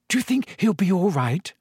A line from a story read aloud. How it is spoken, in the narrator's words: said Hermione nervously